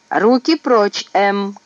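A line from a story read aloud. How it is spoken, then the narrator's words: Shouting. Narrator (Russian): крикнул Гиф младшей сестренке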